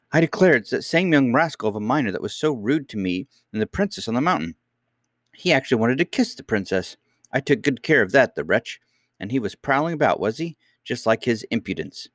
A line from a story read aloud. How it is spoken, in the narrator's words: she exclaimed with indignation